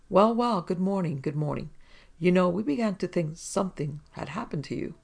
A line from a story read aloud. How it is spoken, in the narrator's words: Captain Cripp looked hearty and without a sign of a chill as he exclaimed